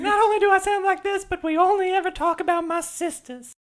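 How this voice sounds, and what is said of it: Baby voice character. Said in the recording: “baby voice”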